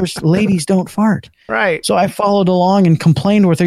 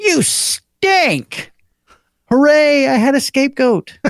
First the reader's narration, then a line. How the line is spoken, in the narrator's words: my mom yelled